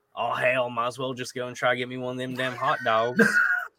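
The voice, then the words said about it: Imitates another person's voice. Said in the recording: “my Jacob impersonation, which I feel like is pretty good.”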